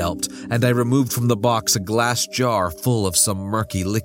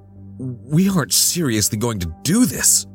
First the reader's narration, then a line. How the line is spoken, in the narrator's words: I gasped